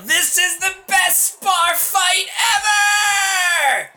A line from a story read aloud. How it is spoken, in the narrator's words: I'm going to yell